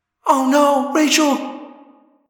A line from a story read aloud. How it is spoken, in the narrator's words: Cassie cried